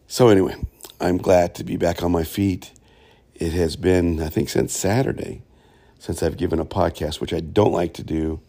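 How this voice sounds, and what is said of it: Sounds ill, voice affected, coughing. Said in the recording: “I was down, my friends. And you will hear it in my voice and in my cough.”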